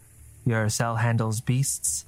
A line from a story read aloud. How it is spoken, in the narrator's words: asked nervously